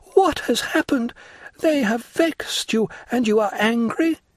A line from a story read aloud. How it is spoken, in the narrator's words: cried she